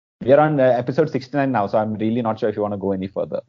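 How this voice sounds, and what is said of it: Indian accent. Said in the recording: “We say the only Indian podcast in an Indian accent.”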